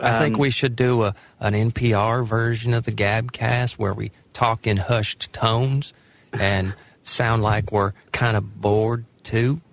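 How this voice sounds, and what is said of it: Put-on Southern US accent. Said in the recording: “But why are you doing a southern voice? ... It's my default southern voice ... you're stereotyping of the southern vocal stylings”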